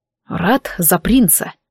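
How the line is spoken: Grumbled. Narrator (Russian): буркнул Дарк

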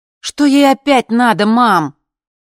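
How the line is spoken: Loud question. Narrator (Russian): спрашивала я громко

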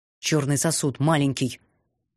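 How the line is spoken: Impatient growl. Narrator (Russian): Нетерпеливо рыкнул Эктар

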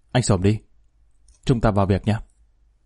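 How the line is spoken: Stern voice. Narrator (Vietnamese): Thượng tá Minh nghiêm giọng

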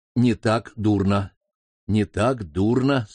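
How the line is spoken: Calm. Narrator (Russian): спокойно проговорил Ким

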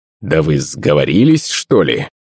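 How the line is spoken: Angry, strangled grunting. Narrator (Russian): Я зарычал от гнева, но мои голосовые связки выдали лишь какое-то кряхтение

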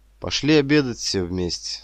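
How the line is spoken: Plain. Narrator (Russian): сказал Борис

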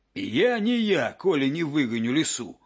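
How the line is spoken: Growling wolf. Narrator (Russian): зарычал волк

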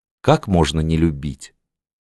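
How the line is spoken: Soft whisper. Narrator (Russian): шепнула она губами-лепестками

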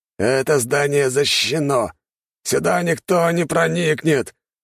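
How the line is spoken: Contemptuous growl. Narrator (Russian): рыкнул Амир, поражаясь трусости офицеров

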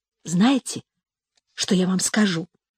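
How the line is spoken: Child's whisper. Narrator (Russian): шепнула девочка

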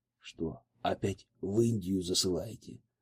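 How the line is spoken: Whispered question. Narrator (Russian): шепотом поинтересовался Алексей

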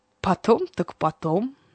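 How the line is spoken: Laughing, from behind door. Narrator (Russian): смеясь, произнес Ромео уже за дверью

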